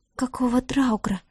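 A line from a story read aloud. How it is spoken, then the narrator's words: Stunned whisper. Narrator (Russian): ошарашенно прошептала Диара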